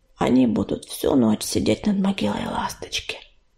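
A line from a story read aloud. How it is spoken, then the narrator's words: Drowsy muttering. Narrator (Russian): не открывая глаз, пробормотала пепелица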